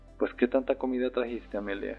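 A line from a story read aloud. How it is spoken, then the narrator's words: Father laughing while speaking. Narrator (Spanish): decir a mi padre riendo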